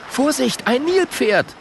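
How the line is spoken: Shouting. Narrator (German): ruft Schabako

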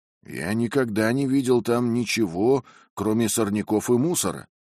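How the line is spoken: Plain, gardener. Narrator (Russian): ответил садовник

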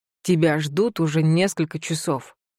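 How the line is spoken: Impatient, irritated. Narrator (Russian): Артур говорит нетерпеливо, раздраженно

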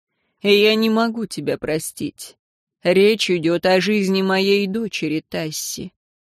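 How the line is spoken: Cold. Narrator (Russian): Император холодно сказал

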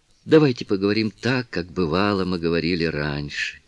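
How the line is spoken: Soft, enchanting siren-like voice. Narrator (Russian): мягко произнесла она, и в ее голосе прозвучала обворожительность сирен

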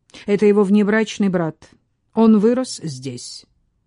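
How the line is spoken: Sharp. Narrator (Russian): Коно резко сказал

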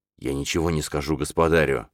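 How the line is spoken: Mumbling. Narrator (Russian): бормотал Биревой

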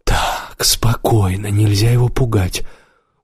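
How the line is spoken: Quiet, calm, persuasive. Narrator (Russian): Убер заговорил негромко и спокойно, очень убедительно

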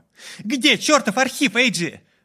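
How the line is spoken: Young woman shouting. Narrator (Russian): выкрикнула девушка

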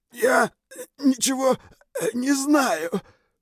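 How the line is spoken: Strained breathless wheeze. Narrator (Russian): прохрипел кучер, покраснев от напряжения, боли и нехватки воздуха

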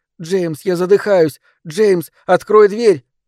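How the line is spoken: Screaming. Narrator (Russian): Она закричала

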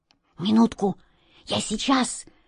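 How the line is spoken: Whisper. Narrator (Russian): шепнул Васе кот Васька

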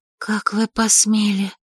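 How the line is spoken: Incredulous whisper. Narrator (Russian): неверяще прошептала я

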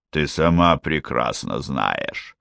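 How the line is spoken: Growling through teeth. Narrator (Russian): зарычал сквозь зубы Эрдаль

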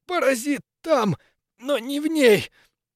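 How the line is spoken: Strangled hoarse wheeze. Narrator (Russian): Сдавленно просипел

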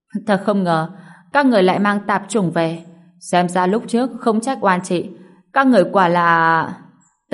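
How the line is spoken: Stunned, laughing loudly. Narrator (Vietnamese): Cô ả ngẩn ra, cười lớn

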